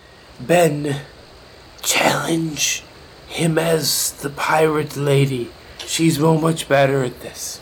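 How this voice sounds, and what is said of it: Loud attempted whisper. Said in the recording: “That was a whisper, sir! ... Sir, that was a whisper. ... That most definitely was not a whisper to anybody's ears but yours.”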